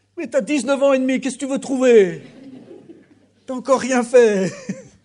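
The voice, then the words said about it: Put-on accent. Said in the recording (French): “Je ne sais pas pourquoi je prends cet accent-là”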